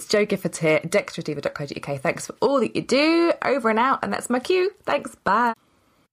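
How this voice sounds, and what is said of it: Speaks with a distinct accent. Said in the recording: “Love your accent. It's awesome.”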